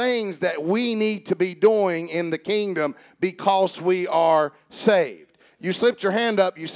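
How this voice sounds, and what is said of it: Usual voice. Nothing is said of it.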